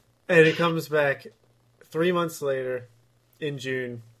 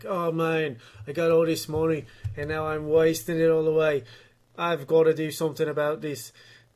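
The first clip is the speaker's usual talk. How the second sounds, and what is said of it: Conor McGregor impression. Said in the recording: “That wasn't a bad impression, was it?”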